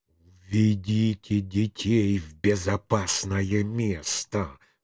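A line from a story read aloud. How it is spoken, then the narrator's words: Command through gritted teeth. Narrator (Russian): сквозь зубы приказал я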